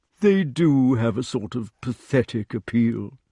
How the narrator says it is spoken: said the badger sadly

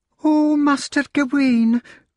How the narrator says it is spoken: cried the maid whose name was Meg

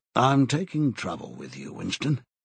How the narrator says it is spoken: he said

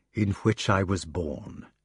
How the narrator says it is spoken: he said solemnly

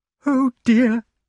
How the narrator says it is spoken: sobbed the damsel

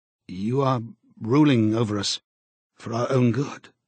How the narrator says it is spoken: he said feebly

